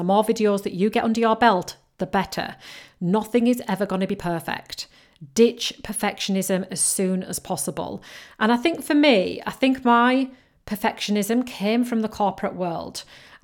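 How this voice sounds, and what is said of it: Yorkshire and Geordie mixed accent. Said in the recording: “I've got a Yorkshire accent. And you can tell that from me speaking. And it is kind of a mixture between Yorkshire and Geordie”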